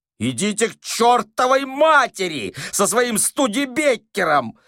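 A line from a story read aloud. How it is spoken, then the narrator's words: Yelling. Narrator (Russian): заорал Остап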